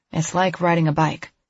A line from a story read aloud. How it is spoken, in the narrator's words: Harrison says